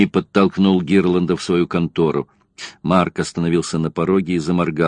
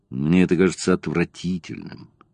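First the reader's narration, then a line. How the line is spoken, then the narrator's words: Sighing. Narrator (Russian): вздохнул Гирланд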